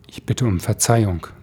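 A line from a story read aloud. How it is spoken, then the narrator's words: Plain. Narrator (German): sagte der Mann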